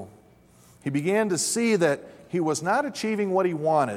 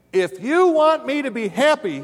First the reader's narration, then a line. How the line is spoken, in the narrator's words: the young man shouted